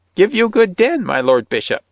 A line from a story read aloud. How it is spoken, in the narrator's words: she piped in a shrill voice